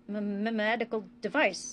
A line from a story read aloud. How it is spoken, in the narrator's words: Bashir stuttered